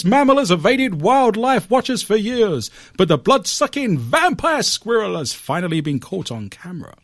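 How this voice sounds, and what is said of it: Old-fashioned British newsreel accent. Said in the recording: “This sounds very 1950s Pathé News. ... I'm going to do this in an old English British accent.”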